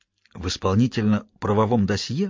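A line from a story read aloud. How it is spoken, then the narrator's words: Whispered question. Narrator (Russian): шепотом переспросил Уитком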